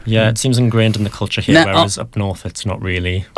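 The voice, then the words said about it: Northern English Newcastle accent. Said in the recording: “I'm suspecting from your accent, you're a little bit further north than Chatteris ... I'm from Newcastle originally.”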